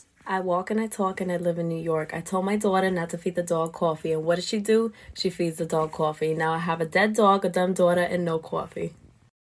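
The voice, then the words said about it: Very strong New York accent. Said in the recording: “a very extreme New York accent”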